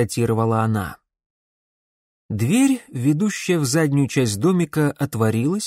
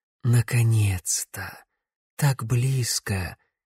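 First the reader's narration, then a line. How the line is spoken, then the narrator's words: Quiet. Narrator (Russian): тихо произнесла Корделия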